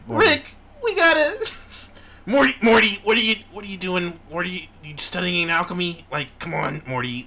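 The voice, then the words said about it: Cartoon character voice impression. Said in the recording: “It sounds a little more like Rick when you're doing it... It sounds like Morty a little bit... I know they do sound like that, which is pretty good. Pretty good impression.”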